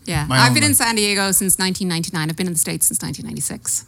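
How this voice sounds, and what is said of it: Irish accent. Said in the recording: “is that an Irish accent? ... that's not a San Diego accent. ... it's not Canadian.”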